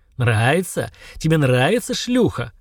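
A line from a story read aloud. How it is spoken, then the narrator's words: Hoarse, panting, spluttering. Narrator (Russian): хрипел Черен, брызгая слюной, тяжело дыша, как после долгого бега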